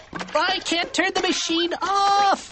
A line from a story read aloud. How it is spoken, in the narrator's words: cried Donnie